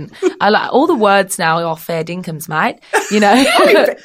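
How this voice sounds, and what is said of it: Put-on Australian accent. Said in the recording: “I just love the Aussie accent ... very good accent ... it's like Nicole Kidman's in the room”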